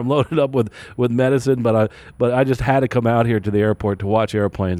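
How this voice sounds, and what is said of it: Sick-sounding voice. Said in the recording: “Even today where I'm sick, I don't know if you can hear it in my voice”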